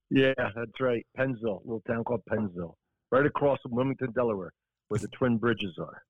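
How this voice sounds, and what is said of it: South Jersey accent. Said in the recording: “You grew up in South Jersey. I'm from Philly ... I hear it in your voice, in your accent”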